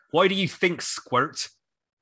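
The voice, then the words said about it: Put-on accent reading a line. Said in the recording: “That's such a good word in that accent.”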